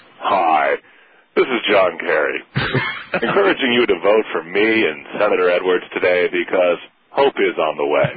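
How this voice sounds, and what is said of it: Imitates another person's voice. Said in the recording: “hear you do an impression of your stepfather”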